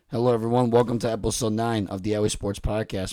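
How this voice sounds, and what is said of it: Raspy voice. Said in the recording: “why does my voice sound raspy? ... It's always raspy.”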